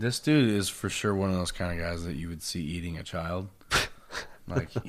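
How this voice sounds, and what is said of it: Usual voice. Nothing is said of it.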